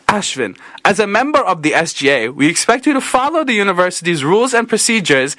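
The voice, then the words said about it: Put-on accent, fairly good. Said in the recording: “How do we think of the accent? Good. ... I thought that was pretty good”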